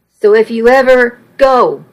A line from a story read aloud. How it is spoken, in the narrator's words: I shouted recklessly